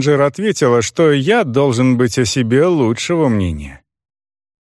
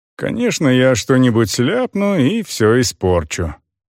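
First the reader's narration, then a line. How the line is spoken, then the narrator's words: Gloomy. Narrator (Russian): мрачно сказал я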